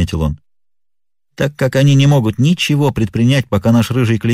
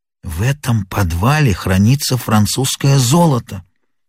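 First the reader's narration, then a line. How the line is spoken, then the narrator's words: Whisper. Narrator (Russian): шепнул мне Мерриветер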